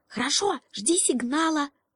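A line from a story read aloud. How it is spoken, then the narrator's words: Whispered reply. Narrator (Russian): ответил лягушонок тоже шепотом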